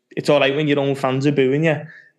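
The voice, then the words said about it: Impression of Wayne Rooney's accent. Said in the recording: “It's a good impression, that, isn't it? ... Perfect accent for it.”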